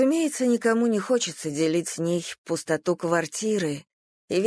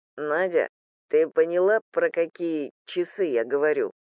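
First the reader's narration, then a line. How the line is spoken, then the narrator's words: Calm question. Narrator (Russian): спокойно переспросил Полуянов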